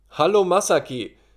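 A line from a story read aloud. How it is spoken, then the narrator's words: Calling out. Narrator (German): rief Shinichi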